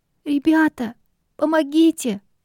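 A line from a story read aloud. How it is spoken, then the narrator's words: Tearful call. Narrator (Russian): Плачущим голосом окликнула она нас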